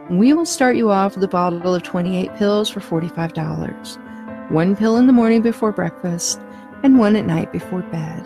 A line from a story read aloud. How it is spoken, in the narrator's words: he said